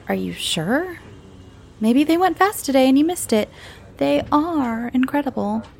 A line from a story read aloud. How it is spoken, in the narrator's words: I said teasingly